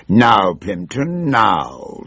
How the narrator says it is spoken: growled

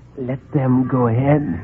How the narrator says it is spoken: he whispered

